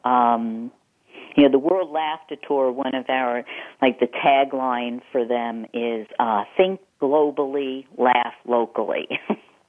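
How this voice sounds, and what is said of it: Slight Eastern US accent. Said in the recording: “a little bit of a Eastern accent”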